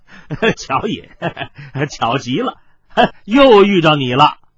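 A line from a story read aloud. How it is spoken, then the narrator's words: Dry cough, forced laugh. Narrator (Chinese): 司徒笑干咳了一声，强笑道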